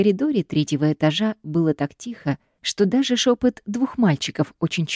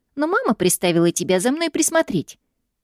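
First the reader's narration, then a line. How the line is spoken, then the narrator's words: Snide boy smirking. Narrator (Russian): ехидно ухмыльнулся мальчишка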